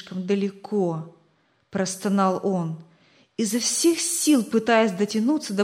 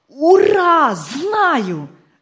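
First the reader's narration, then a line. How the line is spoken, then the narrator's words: Joyful shout. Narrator (Russian): радостно закричал он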